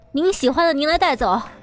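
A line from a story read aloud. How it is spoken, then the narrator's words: Loud shout. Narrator (Chinese): 吴恙大喊一声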